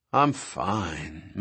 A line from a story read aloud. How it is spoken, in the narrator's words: Malcolm said in a dreamy voice